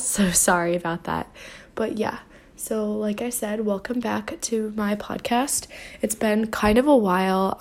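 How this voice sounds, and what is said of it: Sick, rough-sounding voice. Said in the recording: “I'm gonna apologize in advance for my voice ... I got sick ... my voice sounds a little awful”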